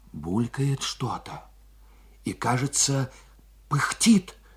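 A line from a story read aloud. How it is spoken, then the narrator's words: Flustered exclamation. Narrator (Russian): сметенно воскликнул он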